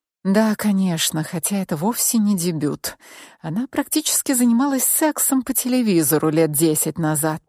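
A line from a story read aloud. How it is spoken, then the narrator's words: Secretive whisper. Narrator (Russian): прошептала я, чтобы ты, Алиса, не услышала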